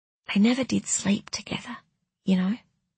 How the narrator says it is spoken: whispered Tess

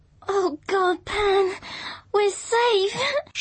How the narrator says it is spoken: she sobbed

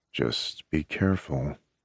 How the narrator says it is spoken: he murmurs between soft kisses

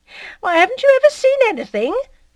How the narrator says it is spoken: Félicité answered, laughing

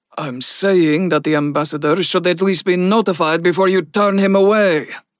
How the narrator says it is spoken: Bunsen grunted

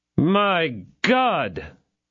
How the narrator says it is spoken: cried the hollow voice of Athos

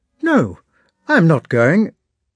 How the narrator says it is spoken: Pierre replied hastily in a surprised tone and as though offended

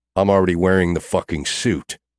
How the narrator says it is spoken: I growl

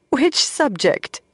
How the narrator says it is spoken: Moiraine asked, half laughing

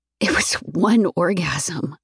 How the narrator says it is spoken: I whisper

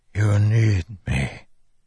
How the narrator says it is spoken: Taravangian whispered

